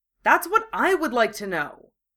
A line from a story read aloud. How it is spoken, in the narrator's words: Draco snapped